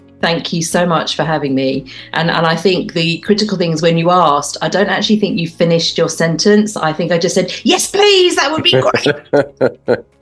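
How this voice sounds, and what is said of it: English accent. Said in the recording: “my accents tend to change ... some of my ancestry is in Wales ... it turns into a bit of Welsh. So you've definitely got the English version today”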